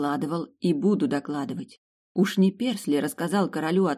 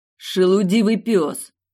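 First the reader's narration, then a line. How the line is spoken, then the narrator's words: Shouting. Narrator (Russian): закричал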